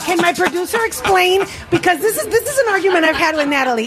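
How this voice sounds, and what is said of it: Non-native English accent. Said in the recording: “I have a big hang up about my accent ... you stupid immigrant ... people with an accent”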